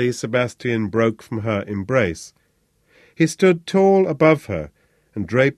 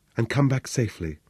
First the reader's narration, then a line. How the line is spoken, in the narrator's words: whispered Rosa